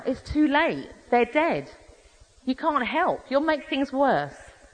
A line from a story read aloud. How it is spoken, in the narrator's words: distraught parents cried out